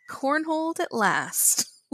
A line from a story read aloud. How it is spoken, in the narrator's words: Lipland shouts gleefully